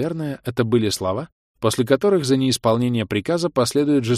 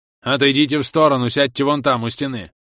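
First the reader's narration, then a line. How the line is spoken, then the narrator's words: Barking command. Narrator (Russian): рявкнул на них старший охранник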